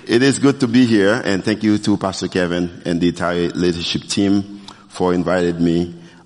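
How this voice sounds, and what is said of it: Non-native English accent. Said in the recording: “as you can tell based on my accent, I'm not from here”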